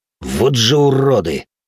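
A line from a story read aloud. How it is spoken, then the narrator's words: Hateful growl. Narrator (Russian): с ненавистью прорычал Зод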